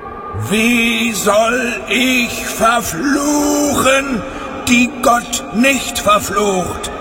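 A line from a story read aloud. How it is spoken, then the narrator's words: Loud far-carrying call. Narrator (German): rief, und seine Stimme war weithin über das Land zu hören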